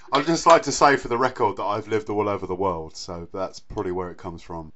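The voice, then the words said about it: Odd mixed accent. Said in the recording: “your dulcet tones and weird mocking accent”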